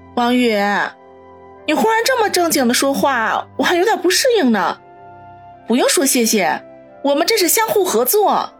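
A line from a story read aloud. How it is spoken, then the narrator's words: Smiling. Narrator (Chinese): 苏辛迪莞尔一笑，说道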